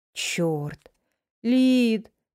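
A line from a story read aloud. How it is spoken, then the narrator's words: Drawn-out drawl. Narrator (Russian): протянула я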